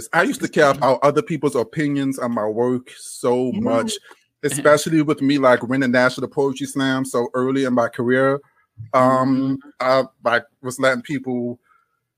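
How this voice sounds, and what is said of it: Southern Louisiana drawl. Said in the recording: “I can't make myself sound like I'm Southern. I have to make sure I take out my accent ... You're going to get this Louisiana drawl.”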